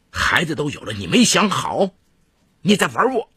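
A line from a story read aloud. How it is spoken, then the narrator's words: Sudden furious outburst. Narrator (Chinese): 毕东华瞬间暴怒起来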